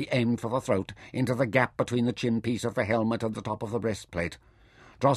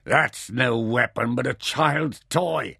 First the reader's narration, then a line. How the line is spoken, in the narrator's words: Drosser laughed scornfully